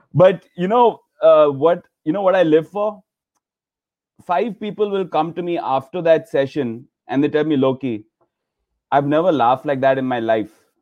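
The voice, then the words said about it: Thick Indian accent. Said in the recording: “this Indian guy trying to do with his thick accent”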